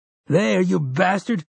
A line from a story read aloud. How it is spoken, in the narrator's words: Jamie screams